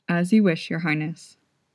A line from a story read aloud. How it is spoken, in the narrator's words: murmured